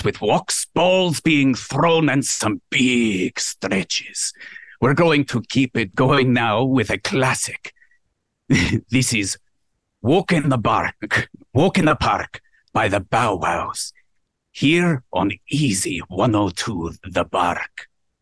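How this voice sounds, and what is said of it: Put-on Scottish accent, deep voice. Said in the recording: “you sounded 40, but beyond that, I love the accent... I think the Scottish accent makes people go deeper”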